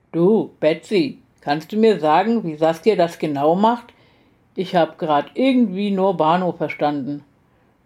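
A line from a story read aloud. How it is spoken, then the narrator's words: Disguised voice. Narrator (German): sagte mit verstellter Stimme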